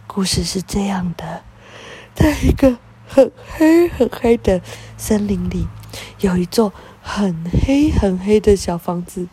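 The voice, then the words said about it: Low, hushed storytelling voice. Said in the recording (Chinese): “低压低的声音说”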